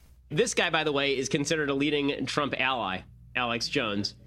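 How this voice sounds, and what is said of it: Usual voice. Nothing is said of it.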